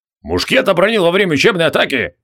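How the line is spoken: Corporal's bark. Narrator (Russian): гаркнул капрал

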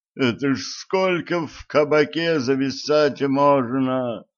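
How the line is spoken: Groaning. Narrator (Russian): Простонал Гриша

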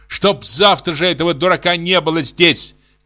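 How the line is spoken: Shouting. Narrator (Russian): кричала Софья Ивановна

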